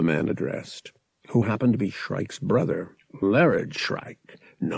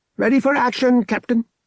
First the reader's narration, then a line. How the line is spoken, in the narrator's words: she squeaked